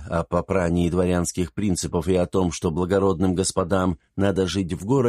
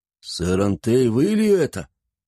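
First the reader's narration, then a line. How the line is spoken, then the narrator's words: Hoarse, slurred, astonished question. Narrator (Russian): С огромным удивлением в голосе, хрипло и изрядно заплетающимся языком спросил он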